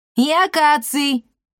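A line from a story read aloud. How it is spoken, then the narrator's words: Shouted. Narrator (Russian): крикнул кот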